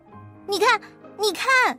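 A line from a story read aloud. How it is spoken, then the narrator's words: Small cat crying out. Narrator (Chinese): 小个子猫叫起来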